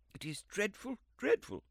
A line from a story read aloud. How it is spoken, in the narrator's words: cried the lady, between laughter and tears